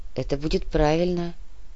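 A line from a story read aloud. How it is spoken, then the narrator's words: Quiet young man. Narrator (Russian): тихо произнес молодой человек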